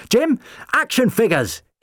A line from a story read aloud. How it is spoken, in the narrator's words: he yelled